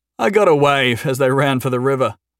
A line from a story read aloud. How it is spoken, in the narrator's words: Jason said with a chuckle